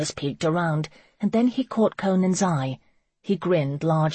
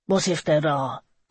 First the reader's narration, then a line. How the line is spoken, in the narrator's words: Conan grumbled, frustrated with both the board he was fighting and the revelation Seamus was sharing